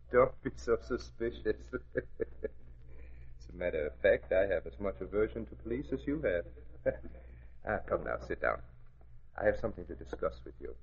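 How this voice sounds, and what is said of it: Slight foreign accent. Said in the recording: “You talk with a slight accent”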